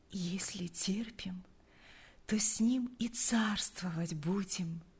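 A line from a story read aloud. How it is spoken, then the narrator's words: Sleepy whisper. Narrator (Russian): прошептала она, засыпая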